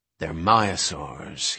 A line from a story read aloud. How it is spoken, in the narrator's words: he whispered